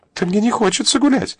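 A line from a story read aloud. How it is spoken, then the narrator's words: Frightened girl's babble. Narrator (Russian): испуганно пролепетала девица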